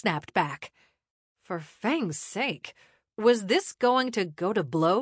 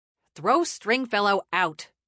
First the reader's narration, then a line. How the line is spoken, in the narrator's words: Ruby barked